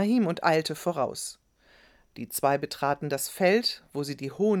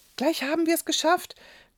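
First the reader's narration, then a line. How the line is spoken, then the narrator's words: Panted. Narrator (German): keuchte Rahim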